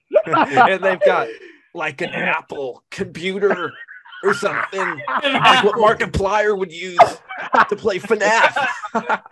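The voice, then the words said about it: Drunk-sounding imitation of another voice. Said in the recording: “that's my drunk Saber Spark impression.”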